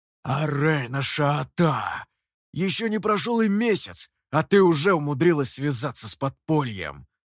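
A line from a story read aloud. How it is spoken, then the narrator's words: Wary growl. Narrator (Russian): Настороженно, он прорычал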